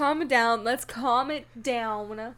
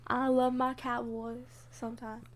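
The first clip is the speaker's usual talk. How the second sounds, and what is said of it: Southern country twang accent. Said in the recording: “Stop speaking in a country accent. ... My southern comes out. ... Sounds like ... a ... weird ... Grandma. ... my southern twang”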